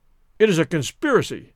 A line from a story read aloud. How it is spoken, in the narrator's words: said de Coude angrily